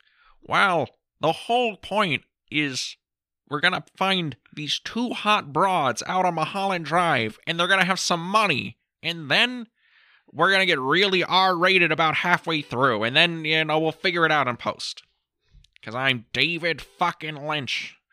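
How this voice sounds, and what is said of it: David Lynch impression. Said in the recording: “You, you have a really good David Lynch impression”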